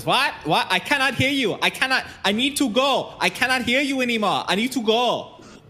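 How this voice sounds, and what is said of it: Shouted put-on Finnish accent. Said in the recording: “he kind of shouts over the fan ... he's supposed to have a Finnish stock car racer accent. So I am doing my goddamn best.”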